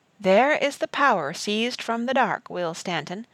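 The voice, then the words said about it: Frail old woman's voice. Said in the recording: “in her frail voice”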